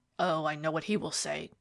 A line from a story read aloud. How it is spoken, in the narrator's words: growled Miller